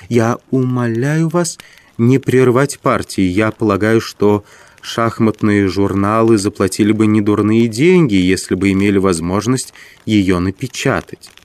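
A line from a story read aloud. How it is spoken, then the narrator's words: Quiet, clear, smiling. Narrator (Russian): справившись с собой тихо, но ясно ответила Маргарита и, улыбнувшись, добавила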